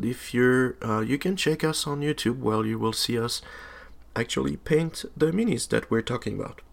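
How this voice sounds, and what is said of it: Sick-sounding voice. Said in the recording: “as you can hear from my voice, I am a bit sick”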